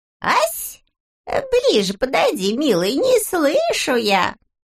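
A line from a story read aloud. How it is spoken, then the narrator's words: Squeaky old woman. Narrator (Russian): Снова пропищала старушонка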